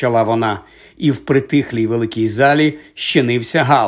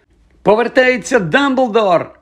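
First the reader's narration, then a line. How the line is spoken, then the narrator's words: Joyful shouting, several voices. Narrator (Ukrainian): радісно заволали кілька учнів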